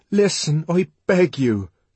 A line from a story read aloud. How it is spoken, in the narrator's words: cried the savage earnestly